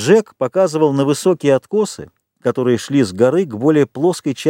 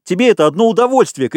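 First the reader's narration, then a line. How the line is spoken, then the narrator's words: Shouted. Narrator (Russian): кричал Ральф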